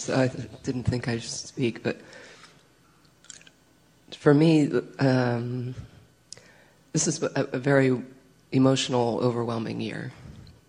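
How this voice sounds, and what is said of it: Voice of someone with a cold. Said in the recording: “I have a cold”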